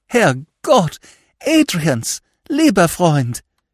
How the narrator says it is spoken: she cried emotionally

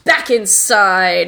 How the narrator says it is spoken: Mistress Barbarous says through clenched teeth

